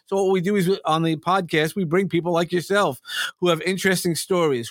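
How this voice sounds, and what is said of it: New York accent. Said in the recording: “As you could probably hear, I have a New York accent,”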